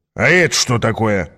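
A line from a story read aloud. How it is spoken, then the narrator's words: Plain. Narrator (Russian): спросил Аас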